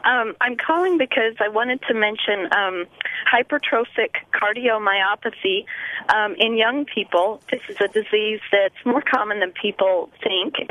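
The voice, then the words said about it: Hoarse, raspy voice. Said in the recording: “Just excuse my laryngitis.”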